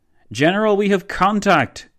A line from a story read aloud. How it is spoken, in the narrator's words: boomed one of von Leto Vorbeck's forward soldiers